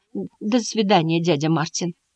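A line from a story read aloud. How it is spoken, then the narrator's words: Trembling small voice. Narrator (Russian): дрожащим голоском произнес он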